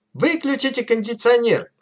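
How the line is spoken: Shouting crowd of locals. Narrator (Russian): кричали опытные аборигены

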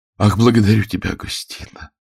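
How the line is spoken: Whisper. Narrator (Russian): прошептала

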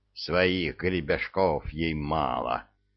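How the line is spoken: Growled. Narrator (Russian): рычал Михайло Потапыч

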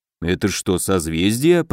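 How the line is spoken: Muttered. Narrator (Russian): пробормотал Добрыня

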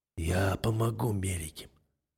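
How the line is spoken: Hoarse statement. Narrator (Russian): хрипло произношу

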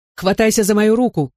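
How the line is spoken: Father shouting. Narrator (Russian): крикнул отец

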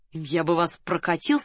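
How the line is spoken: Plain. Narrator (Russian): сказал Соболев

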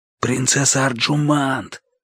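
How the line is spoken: Whispered call. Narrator (Russian): позвал шепотом

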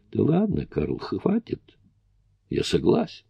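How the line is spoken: Quiet. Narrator (Russian): я тихо сказал

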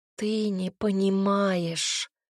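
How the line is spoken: Groan. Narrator (Russian): простонала я

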